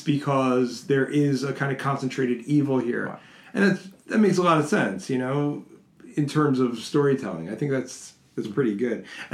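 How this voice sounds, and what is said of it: Raspy, craggy voice from a cold. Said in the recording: “apologies for my voice. I'm getting over a cold, so I'm a little craggy. ... raspy. ... Sexy. A little Barry White.”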